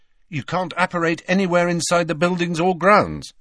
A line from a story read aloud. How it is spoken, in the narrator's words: said Harry quickly